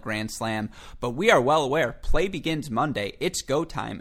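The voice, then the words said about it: Excited, chipper voice. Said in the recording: “Obviously excited. You can hear it in my voice, right? ... You're even more chipper than usual.”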